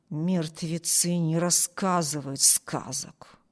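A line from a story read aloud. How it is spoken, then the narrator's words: Chilling mutter. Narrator (Russian): пробормотал Харпер таким тоном, что у Эми кровь застыла в жилах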